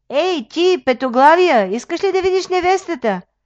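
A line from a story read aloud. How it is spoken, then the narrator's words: Shouting. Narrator (Bulgarian): Еленко извикал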